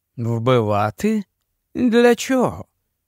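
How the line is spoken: Calm. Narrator (Ukrainian): спокійно сказав він

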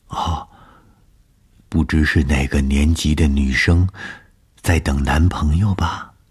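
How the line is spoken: Whispering close to ear. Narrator (Chinese): 凑在我的耳边低声地说

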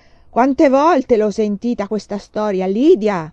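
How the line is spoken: Father thundering. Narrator (Italian): tuonava mio padre

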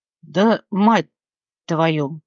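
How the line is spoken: Hoarse, slightly slurred. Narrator (Russian): прохрипел он немного невнятно

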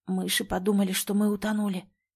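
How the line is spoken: Whispered. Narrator (Russian): прошептал Ганс

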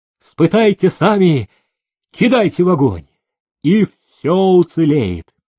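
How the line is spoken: Cheerful offering. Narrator (Russian): заводчик весело предлагал

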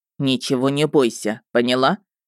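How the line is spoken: Stern. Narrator (Russian): Любомир строго сказал

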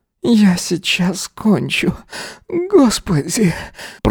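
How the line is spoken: Hoarse wheeze. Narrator (Russian): просипел Эзра

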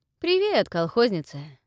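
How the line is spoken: Cheerful, relaxed, smiling greeting. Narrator (Russian): Весело и непринужденно, сияя белозубой улыбкой, поприветствовал он

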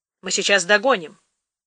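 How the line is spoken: Plain. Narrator (Russian): сказала она Герасимову

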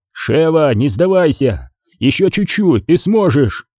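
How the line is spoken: Shouting. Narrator (Russian): кричал ей Крис

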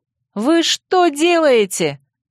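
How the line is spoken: Shouted question. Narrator (Russian): крикнул я Костопраху

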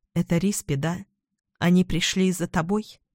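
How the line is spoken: Quiet question. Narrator (Russian): Я тихо спросила

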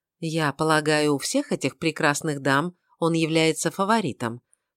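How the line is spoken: Pointedly calm question. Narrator (Russian): подчеркнуто спокойным тоном поинтересовалась она

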